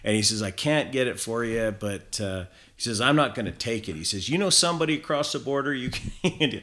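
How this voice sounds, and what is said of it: Deliberately poor American accent. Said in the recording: “I'm putting on this terrible American accent.”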